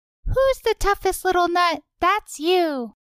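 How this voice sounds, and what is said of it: Cartoon character voice impression. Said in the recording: “Do an impression. ... I like that your Duke of Nuts sounds kind of like Ralph Wiggum from The Simpsons.”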